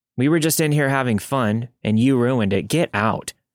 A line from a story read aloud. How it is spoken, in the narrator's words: I said coldly